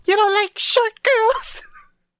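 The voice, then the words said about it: High-pitched fairy character voice. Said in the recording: “That's a terrible impression”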